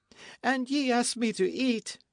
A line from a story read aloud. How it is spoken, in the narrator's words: she cried